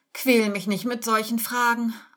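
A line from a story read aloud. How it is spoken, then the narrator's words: Tearful, whiny answer. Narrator (German): antwortet Josephine mit weinerlicher Stimme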